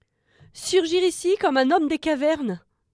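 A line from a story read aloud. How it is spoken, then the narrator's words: Exclamation. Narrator (French): s'exclama-t-elle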